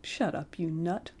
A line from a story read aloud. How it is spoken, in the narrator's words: said the bad man gently